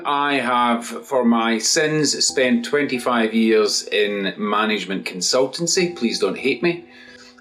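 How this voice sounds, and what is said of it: Scottish accent. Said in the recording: “From my accent from Scotland”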